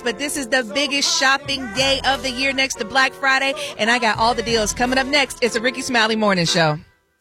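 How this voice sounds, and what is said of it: Excited, energetic delivery. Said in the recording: “I don't know if you can hear the excitement in my voice”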